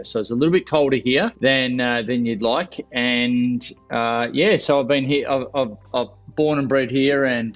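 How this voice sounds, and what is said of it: Australian accent. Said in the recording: “I'm obviously from the accent. I'm from Australia”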